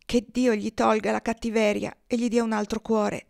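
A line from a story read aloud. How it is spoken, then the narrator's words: Sighing woman. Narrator (Italian): sospirava la donna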